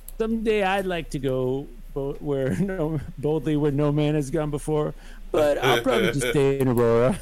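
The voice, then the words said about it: Garth Algar impression. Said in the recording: “You got the Garth accent, though. That was excellent.”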